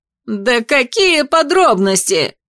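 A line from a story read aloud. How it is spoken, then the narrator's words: Shouting. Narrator (Russian): закричал Вьера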